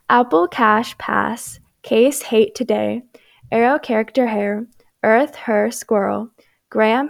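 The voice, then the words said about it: American accent. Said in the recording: “I'm pretty sure I just have a normal American accent”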